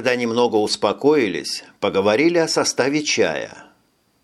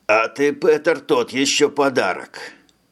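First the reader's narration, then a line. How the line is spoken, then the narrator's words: Remarked. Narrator (Russian): заметил Ферлин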